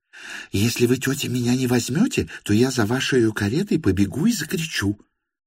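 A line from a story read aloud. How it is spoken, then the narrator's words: Quick desperate close whisper. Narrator (Russian): Быстро и отчаянно прошептала она совсем на ухо Варваре Петровне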